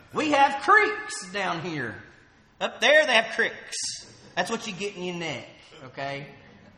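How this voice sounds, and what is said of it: Southern American accent. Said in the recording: “you sure don't talk like me ... I didn't even know I had a southern accent”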